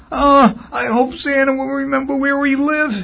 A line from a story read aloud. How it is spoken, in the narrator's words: he wailed